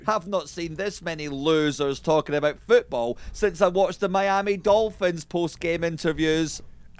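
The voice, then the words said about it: Snooty-sounding Scottish accent. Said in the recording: “It's because of the accent. ... it sounds, feel snobbish. ... Snobby and snooty. ... The Scottish.”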